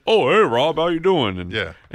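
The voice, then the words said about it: Imitates another person's voice. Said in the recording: “A lot like Randy Orton ... I've been working on my impression.”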